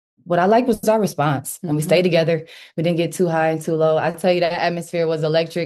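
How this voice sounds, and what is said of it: Hoarse voice. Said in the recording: “My voice is hoarse from screaming.”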